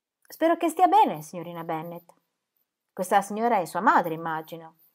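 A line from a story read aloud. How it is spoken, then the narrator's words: Very curt. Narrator (Italian): ella disse molto seccamente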